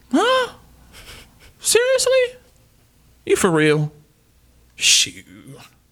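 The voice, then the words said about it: Sassy black woman voice impression. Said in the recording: “my sassy black woman impression ... it was really good”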